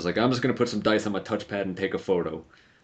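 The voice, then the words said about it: Poor put-on Texan accent. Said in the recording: “That was a terrible Texan accent”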